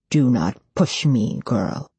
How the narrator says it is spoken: Cetricus Ra growls

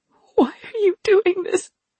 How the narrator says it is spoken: Rin choked

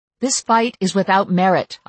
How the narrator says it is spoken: I told her urgently

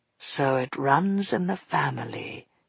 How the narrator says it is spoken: he murmured

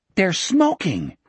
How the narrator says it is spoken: Richard cried angrily

